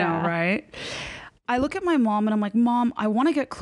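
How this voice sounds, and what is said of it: Usual voice. Nothing is said of it.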